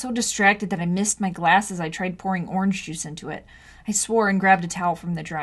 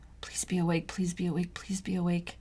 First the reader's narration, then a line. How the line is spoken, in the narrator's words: muttered